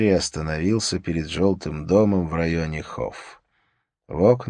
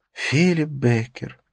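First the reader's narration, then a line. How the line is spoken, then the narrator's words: Sigh. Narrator (Russian): вздохнула Катрина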